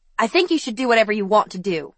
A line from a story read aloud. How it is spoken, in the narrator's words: Ivy snapped